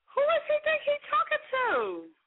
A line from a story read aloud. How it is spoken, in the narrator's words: He yells in the background